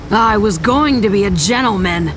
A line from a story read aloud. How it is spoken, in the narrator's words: Harlow snarled